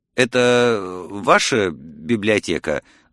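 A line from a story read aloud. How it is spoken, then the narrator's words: Stammering mutter. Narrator (Russian): запинаясь, пробормотал я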